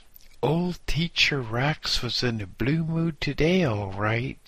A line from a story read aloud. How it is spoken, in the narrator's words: said happily